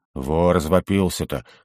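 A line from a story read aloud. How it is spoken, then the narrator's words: Snorting. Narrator (Russian): хмыкнул Арнх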